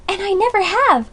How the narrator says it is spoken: cried little Amy

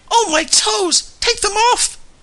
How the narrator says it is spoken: shrieked Josiah Crabtree

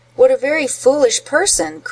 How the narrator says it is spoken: cried he

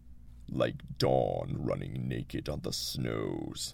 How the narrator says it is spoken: he muttered

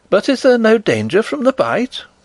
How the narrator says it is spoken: cried Flavia anxiously

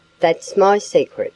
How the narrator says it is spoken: he said

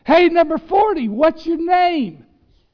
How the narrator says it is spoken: this heckler, this fan, that keeps cupping and yelling

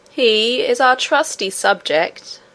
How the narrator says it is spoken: said the king himself, in a slow and stately voice

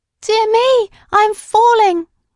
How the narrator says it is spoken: exclaimed the Candy Rabbit

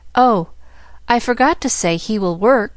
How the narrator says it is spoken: she supplemented eagerly

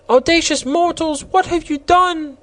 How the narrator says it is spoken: one of the roses cried aloud

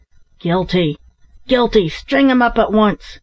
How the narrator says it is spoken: several of the miners cried out

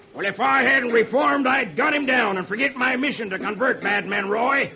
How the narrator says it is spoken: Brimstone shouts

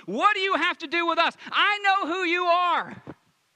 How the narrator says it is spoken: someone screaming at the top of the lungs

